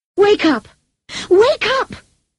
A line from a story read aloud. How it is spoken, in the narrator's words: shouted desperately